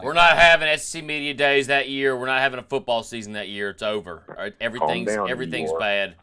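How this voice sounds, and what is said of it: Imitates other people's voices. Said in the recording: “That's just my impression of a few people in our podcast group.”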